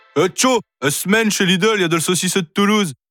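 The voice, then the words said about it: Put-on Northern French accent. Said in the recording (French): “avec un accent du Nord”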